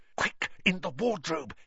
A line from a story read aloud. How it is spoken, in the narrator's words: hissed Harry